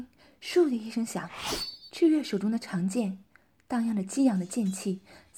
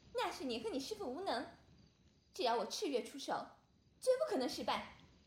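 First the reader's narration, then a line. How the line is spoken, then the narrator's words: Girl laughing. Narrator (Chinese): 女孩笑道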